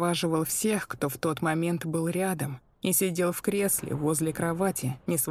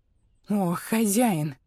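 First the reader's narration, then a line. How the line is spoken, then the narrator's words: Breathed out. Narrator (Russian): выдохнула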